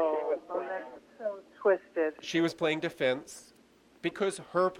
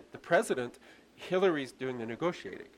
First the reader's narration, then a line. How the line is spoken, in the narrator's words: laughed and said